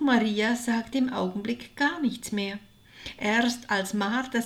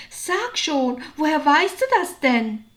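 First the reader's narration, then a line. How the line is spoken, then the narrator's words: Calling out. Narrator (German): rief sie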